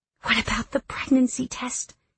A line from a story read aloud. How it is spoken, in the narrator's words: I whisper